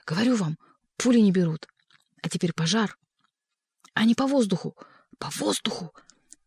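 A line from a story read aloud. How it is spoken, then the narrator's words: Hissing whisper. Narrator (Russian): Боба шипел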